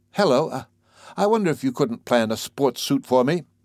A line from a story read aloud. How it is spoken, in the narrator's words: said breathlessly